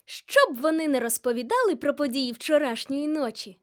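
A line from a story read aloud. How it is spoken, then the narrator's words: Cheerful voice. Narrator (Ukrainian): весело промовила Аша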